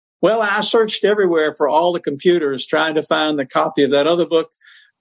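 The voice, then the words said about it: Southern American accent. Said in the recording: “your lovely Southern accent”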